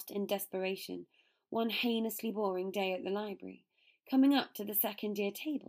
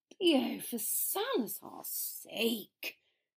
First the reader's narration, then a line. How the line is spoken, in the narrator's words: Draco groaned